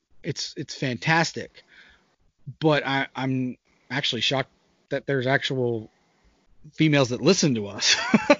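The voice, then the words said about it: Smooth Southern US accent. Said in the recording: “that smooth Virginian accent you have ... southern ... it's still sultry and nice”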